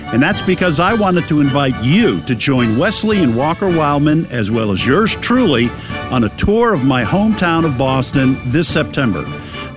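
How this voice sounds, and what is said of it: Boston accent. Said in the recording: “it's a Boston accent”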